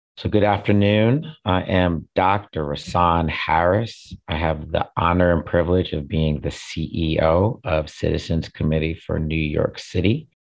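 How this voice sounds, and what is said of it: Hoarse voice. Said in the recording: “besides being hoarse right now”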